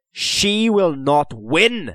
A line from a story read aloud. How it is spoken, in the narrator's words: he said fiercely